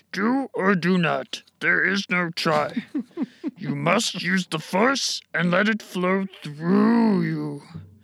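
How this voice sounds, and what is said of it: Yoda impression. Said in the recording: “your best impression of Yoda giving wise advice”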